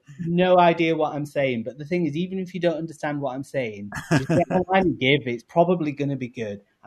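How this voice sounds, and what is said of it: English accent. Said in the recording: “my accent being English”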